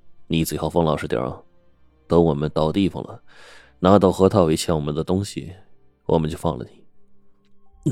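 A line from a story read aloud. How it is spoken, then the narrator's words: Cold. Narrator (Chinese): 司机呢，冷冷的说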